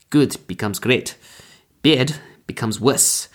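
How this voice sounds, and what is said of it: Poor put-on German accent. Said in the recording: “my terrible attempt at a German accent”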